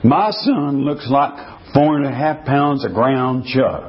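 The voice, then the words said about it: Put-on Texas accent. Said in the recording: “I'm doing the best Texas accent.”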